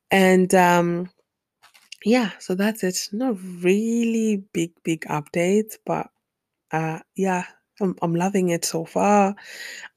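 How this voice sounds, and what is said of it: Rough, strained voice with throat clearing. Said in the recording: “excuse me, I'm getting over a cough. I'm sorry about my voice.”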